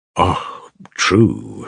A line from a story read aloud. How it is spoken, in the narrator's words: sighed the monk